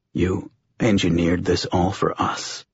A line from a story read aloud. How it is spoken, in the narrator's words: John said, his voice hoarse